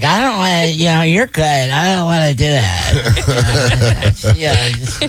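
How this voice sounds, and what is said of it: Imitates another person's voice. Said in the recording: “She doesn't sound like that. ... that's my impression. ... why do you make me sound like I'm stupid all the time?”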